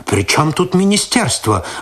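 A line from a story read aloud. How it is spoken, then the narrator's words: Irritated reply. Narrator (Russian): раздраженно ответил тот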